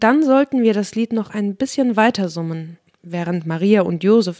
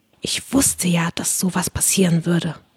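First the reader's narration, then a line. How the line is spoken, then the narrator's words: Whisper. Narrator (German): flüsterte mir Alice Wendlaken zu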